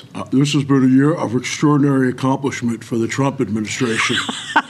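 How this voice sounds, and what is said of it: Imitates another person's voice. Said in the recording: “I'll try to do a voice ... Is that Mitch McConnell? ... your impression ... It was great.”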